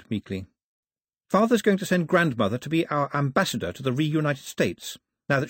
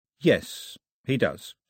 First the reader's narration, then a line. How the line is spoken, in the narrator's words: said Mao